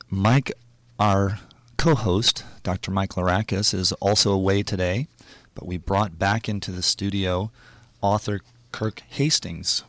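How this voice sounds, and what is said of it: Hoarse voice from sore throat. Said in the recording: “apologize for my voice. I was sick last week, and I'm still suffering under a little bit of a sore throat.”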